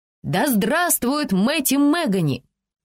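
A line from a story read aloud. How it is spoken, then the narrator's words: Crowd shouting. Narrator (Russian): слушатели тоже кричали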